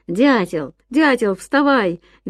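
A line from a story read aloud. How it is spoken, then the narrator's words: Cheerful shout. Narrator (Russian): весело кричал Ян своему спящему другу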